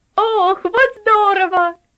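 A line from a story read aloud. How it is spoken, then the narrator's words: Excited child exclaiming. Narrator (Russian): воскликнул Артур, 10-летний проказник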